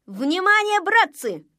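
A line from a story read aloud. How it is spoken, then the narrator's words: Man shouting. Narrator (Russian): закричал он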